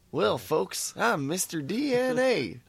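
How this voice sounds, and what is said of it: Southern-accented character voice. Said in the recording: “Mr. DNA had kind of a southern accent.”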